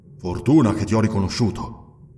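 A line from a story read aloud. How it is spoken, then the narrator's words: Barbarian grumbling. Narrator (Italian): borbottò il barbaro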